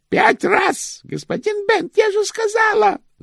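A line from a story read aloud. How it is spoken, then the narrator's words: Woman shouting. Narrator (Russian): закричала госпожа Шик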